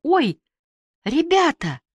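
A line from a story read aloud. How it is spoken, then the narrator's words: Groaning. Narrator (Russian): простонала Люда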